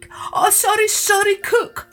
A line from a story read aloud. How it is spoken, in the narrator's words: wailed the king